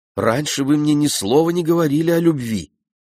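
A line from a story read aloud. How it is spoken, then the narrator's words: Exclaimed, feeling duped. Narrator (Russian): воскликнул Ген, чувствуя, что его обвили вокруг пальца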